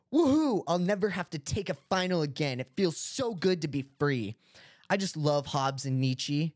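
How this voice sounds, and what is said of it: Imitates another person's voice. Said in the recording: “my best impression of Eric Harris”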